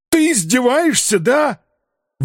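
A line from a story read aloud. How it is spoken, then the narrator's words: Howling at full strain. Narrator (Russian): Взвыл я уже на пределе голосовых связок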